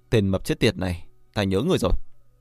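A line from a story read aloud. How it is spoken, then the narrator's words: Cold, low. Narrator (Vietnamese): Thần Thiên trầm xuống, lạnh lùng nói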